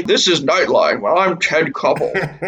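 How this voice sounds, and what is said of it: Poor imitation of a newscaster's voice. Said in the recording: “That is not a good accent.”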